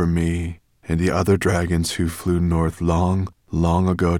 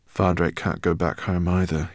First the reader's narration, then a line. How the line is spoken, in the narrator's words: he murmured